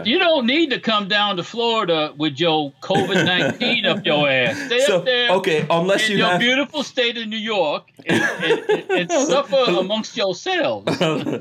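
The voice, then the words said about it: Mock New York accent. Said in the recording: “There was a little bit of New York accent there.”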